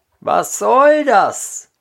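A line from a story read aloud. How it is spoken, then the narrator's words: Calling out. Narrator (German): rief der andere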